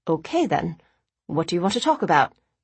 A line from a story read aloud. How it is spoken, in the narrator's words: Nick asked calmly